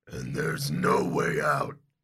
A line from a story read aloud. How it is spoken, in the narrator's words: the orc growls